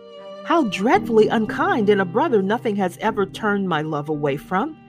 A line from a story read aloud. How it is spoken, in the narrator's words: cried Miss Pross